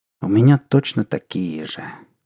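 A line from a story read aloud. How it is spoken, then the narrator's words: Sighing. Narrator (Russian): Благонравов вздохнул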